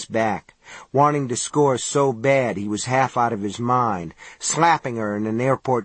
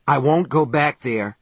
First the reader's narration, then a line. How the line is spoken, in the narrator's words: Johnny said hoarsely